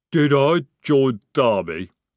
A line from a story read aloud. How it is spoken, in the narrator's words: he rumbled